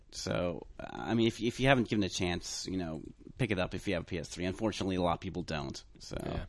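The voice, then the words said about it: Strained, fading voice. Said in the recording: “my voice is kind of going right now... my voice is kind of going”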